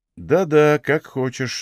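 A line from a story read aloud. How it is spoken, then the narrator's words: Sighing. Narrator (Russian): вздохнул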